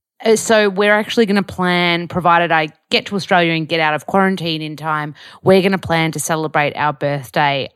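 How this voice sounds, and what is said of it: Broad Australian Bogan accent. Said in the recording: “You haven't lost your Bogan accent though”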